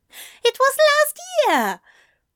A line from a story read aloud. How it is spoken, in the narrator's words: Aziraphale squeaked